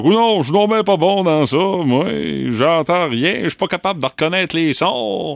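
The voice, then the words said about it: Imitates another person's voice. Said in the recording (French): “imitation de moi, ça? ... Oui, imitation bon marché.”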